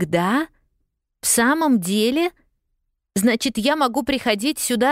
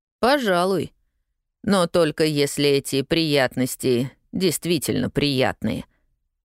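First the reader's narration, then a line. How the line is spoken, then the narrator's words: Gloomy man clarifying. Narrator (Russian): мрачно уточнил мужчина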